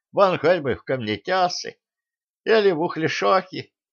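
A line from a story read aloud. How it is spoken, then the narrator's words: Gloomy peasant man. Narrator (Russian): мрачно добавил мужик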